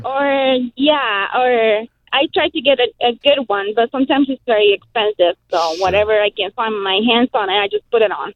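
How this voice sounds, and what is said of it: Non-native English accent. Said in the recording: “I love your accent. It is wonderful.”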